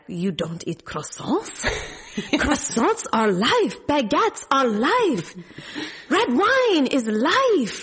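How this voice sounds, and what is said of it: Put-on French accent. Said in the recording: “in his French voice”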